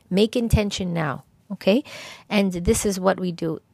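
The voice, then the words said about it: Hoarse, fading voice. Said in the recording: “I was losing my voice.”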